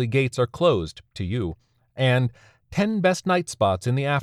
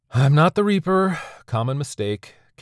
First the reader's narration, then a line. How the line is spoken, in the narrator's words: Carrie said with a sigh